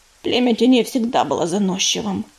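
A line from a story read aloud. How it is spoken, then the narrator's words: Grumbled mutter. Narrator (Russian): буркнула Пепелица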